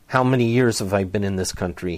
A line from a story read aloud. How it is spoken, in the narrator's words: he shouted to no one in particular